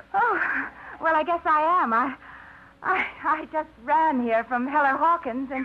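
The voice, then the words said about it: Out of breath, panting speech. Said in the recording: “You sound out of breath.”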